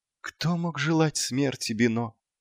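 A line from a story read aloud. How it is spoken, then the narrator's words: Barely audible clown. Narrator (Russian): едва слышно проговорил клоун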